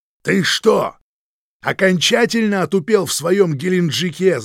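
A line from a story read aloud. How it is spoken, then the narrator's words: Yelled. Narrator (Russian): заорал Хазин, забрызгав лобовое стекло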